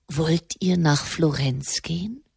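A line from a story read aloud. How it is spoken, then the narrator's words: Quiet question. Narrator (German): Der Papst fragte leise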